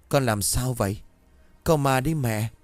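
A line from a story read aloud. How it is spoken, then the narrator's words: Mother's panicked question. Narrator (Vietnamese): mẹ tôi hoảng hốt cất tiếng hỏi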